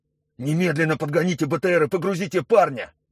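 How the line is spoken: Shouting into radio. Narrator (Russian): закричал в рацию Торшин

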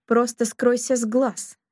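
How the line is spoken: Barked. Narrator (Russian): рявкнул он

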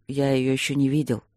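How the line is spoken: Quiet. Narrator (Russian): тихо сказал Стрелковский

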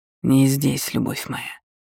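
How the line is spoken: Hoarse king. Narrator (Russian): хрипло произнес король Кхимера

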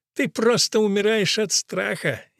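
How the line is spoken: Reluctant laughing. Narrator (Russian): нехотя засмеялась Чунга

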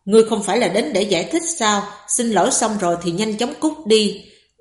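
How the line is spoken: Cold. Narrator (Vietnamese): Âm Tế Thiên lạnh lùng nói

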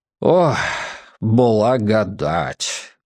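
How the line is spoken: Relieved exhale. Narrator (Russian): выдохнул дядюшка Поль

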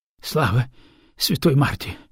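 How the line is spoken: Relieved exhale. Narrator (Russian): выдохнула Кутора

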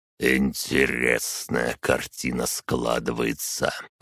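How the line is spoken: Count's mutter. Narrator (Russian): пробормотал граф

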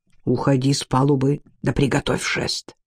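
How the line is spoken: Whisper. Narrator (Russian): Ван шепнул юноше

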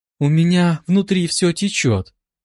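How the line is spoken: Flirtatious sigh. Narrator (Russian): Кокетливо вздохнула женщина

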